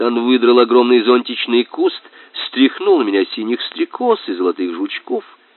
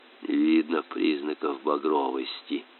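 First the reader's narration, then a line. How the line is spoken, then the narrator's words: Whisper, captain. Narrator (Russian): прошептал для чего-то капитан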